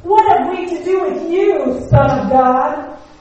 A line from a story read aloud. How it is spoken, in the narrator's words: the madmen yell at Jesus